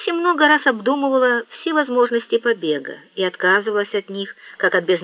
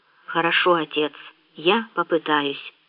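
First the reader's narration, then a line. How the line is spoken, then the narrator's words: Whispered. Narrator (Russian): шепнула Тому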